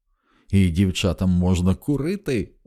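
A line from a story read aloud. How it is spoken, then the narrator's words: Excited exclamation. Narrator (Ukrainian): захоплено вигукнула Маккласкі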